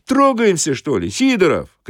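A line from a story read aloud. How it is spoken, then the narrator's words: Shouted. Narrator (Russian): крикнул кондуктор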